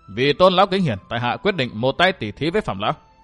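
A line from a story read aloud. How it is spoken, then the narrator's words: Cold dismissive laugh. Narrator (Vietnamese): Phí Thiên Cửu cười nhạt nói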